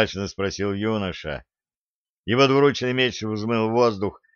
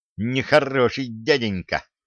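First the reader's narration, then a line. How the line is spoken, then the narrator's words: Angry mutter. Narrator (Russian): сердито пробурчала Валентина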